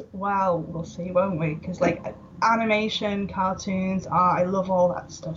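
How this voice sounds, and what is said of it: Welsh accent. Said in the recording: “I pick up an accent from you ... I'm from Wales ... Welsh.”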